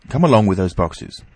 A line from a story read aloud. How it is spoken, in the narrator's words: he said